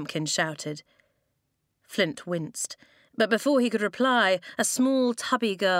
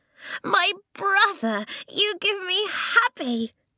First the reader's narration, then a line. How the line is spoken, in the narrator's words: she cried